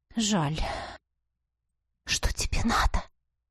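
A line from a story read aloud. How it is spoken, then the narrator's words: Whisper. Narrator (Russian): Шепнула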